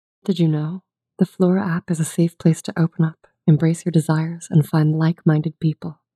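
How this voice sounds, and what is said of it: Sultry female voice. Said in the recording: “do a sultry female voice”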